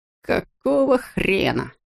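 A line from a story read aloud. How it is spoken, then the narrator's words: Muttered. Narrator (Russian): пробормотал Роми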